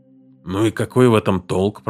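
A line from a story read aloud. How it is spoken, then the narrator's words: Grumbling. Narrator (Russian): проворчал Уоткинс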